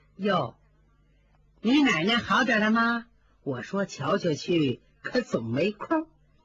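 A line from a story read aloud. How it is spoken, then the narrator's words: Ingratiating smile. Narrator (Chinese): 他赶紧擦擦眼泪，陪笑说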